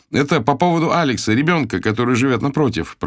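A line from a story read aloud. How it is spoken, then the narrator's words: Shout. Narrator (Russian): прокричал я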